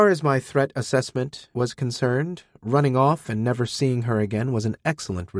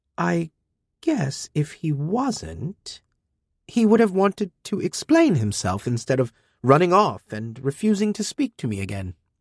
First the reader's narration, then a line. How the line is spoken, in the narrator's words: Amina said slowly